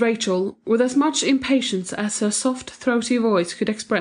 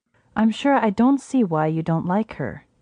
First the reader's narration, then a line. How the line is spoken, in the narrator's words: said Mrs